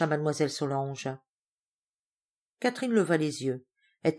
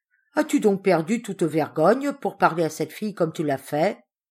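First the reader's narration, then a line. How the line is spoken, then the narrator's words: Scolding. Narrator (French): gronda Mademoiselle Solange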